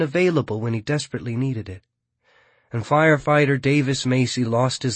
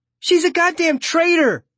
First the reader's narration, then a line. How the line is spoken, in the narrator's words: Esme shouts